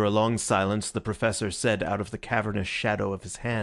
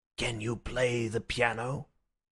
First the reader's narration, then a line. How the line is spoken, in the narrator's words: he said in a low voice